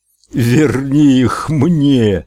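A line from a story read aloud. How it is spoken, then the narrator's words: Howl. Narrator (Russian): взвыл Эд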